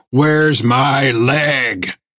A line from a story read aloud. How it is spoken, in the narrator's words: snarled